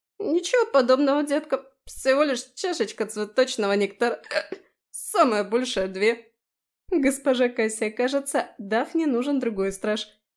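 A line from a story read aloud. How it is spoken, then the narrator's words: Giggling. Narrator (Russian): хихикнула Аби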